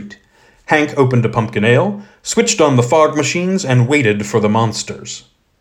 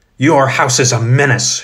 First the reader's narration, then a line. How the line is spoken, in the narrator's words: she hissed